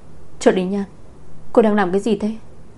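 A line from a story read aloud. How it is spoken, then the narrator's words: Hasty angry shout. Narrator (Vietnamese): Chu Chu bị cơn giận che mắt vội vàng quát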